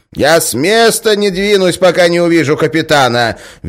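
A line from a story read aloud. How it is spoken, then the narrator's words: Shrill declaration. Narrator (Russian): визгливо заявила толстуха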